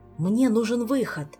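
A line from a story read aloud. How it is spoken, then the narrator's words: Hurried breathy exhale. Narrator (Russian): Торопливо выдохнул Кантер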